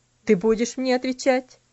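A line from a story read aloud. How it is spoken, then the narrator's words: Stern question. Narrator (Russian): спросил он строгим голосом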